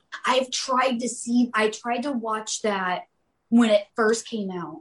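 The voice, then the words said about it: Speaking very loudly. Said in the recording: “I'm talking really loud”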